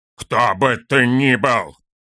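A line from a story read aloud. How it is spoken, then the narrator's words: Growled. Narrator (Russian): зарычал Торин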